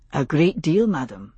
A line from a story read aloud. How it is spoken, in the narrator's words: he said quietly